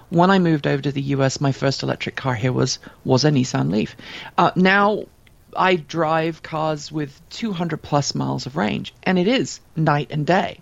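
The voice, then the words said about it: British accent. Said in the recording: “you could tell from my accent, I'm British by birth”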